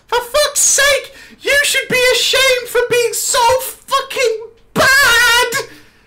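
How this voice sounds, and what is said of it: Screaming childish man's voice. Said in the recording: “screamed. This guy then screamed in his 12-year-old man voice ... My throat might be fucked.”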